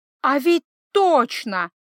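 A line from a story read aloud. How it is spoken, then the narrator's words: Exclaimed. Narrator (Russian): воскликнул Паренте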